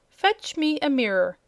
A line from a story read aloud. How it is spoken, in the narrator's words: cried Princess Cerulea